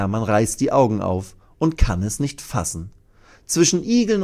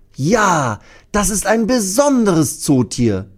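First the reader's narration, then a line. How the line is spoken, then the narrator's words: Loud call. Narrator (German): ruft Thea laut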